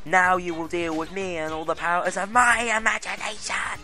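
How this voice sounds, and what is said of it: Impression of Maleficent. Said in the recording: “My perfect impersonation of Maleficent.”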